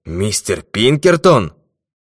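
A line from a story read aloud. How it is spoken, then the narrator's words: Startled exclamation. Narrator (Russian): Тот вздрогнул, воскликнул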